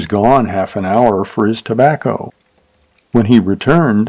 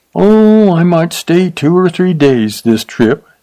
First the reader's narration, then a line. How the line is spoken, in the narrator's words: said the kid, yawning